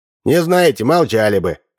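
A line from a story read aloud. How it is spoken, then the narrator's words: Snapping retort. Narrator (Russian): огрызнулся Удалов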